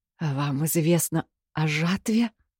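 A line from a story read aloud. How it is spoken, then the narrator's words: Forced through teeth. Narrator (Russian): Сквозь зубы выдавила я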